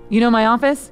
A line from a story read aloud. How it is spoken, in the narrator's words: Dylan asked